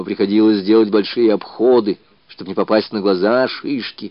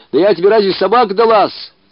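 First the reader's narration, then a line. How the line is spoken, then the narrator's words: Muffled snapping retort. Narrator (Russian): огрызнулась Окся, закрывая широкий рот рукой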